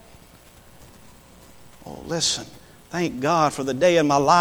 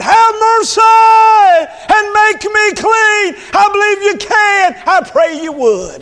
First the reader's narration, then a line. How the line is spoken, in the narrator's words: cried out